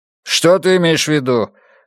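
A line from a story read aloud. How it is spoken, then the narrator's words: Irritated question. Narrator (Russian): раздраженно спросил Карлос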